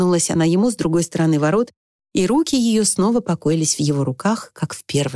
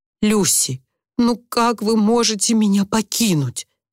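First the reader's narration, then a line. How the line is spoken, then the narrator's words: Trembling question. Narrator (Russian): спросил Уимис дрожащим голосом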